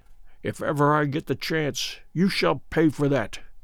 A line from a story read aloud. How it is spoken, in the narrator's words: mutter beneath his breath